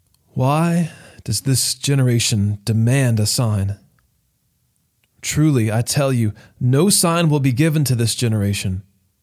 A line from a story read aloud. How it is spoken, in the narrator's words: Sighing deeply in his spirit, he said